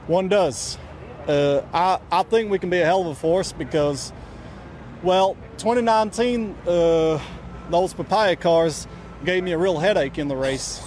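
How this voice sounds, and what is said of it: Put-on Texas accent. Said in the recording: “did a full interview ... with a Texas accent.”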